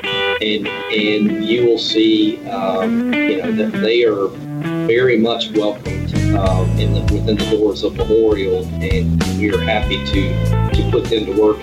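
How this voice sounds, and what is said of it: Alabama Southern US accent. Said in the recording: “Your Alabama accent kind of makes me feel at home”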